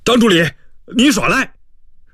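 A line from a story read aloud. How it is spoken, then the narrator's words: Shrill yelp. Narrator (Chinese): 田小牛哎呀怪叫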